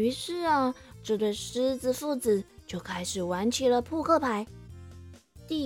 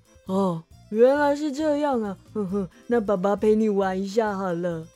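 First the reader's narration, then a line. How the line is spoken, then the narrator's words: Laughing. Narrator (Chinese): 狮子国王笑着说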